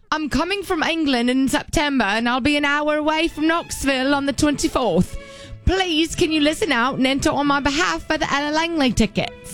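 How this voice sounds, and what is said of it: Put-on English accent. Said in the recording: “Should I do it in English accent? ... Yes, you have to. ... You did so good.”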